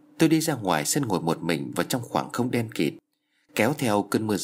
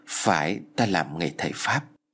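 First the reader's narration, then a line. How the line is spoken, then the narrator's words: Pensive quiet answer. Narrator (Vietnamese): Bác Nam trầm ngâm rồi khẽ lắc đầu trả lời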